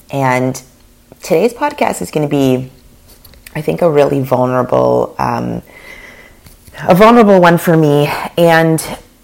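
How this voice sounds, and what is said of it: Hoarse, failing voice. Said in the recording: “I am losing my voice yet again.”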